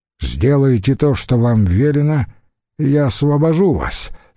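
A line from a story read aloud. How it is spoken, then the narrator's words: Plain. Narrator (Russian): сказал им Литавик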